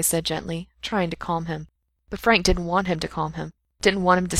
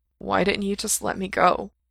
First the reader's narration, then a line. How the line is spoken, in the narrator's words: Frank asked, his voice blurry and tired